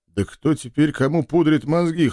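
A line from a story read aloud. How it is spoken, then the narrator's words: Scoffing snort. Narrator (Russian): хмыкнул я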